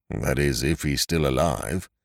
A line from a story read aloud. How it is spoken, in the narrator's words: remarked the tall detective gloomily